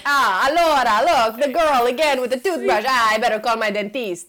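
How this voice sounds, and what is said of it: Put-on exaggerated Italian accent. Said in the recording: “Joey Tribbiani had to play an Italian guy and that's the accent that he used. So I've been rehearsing this accent”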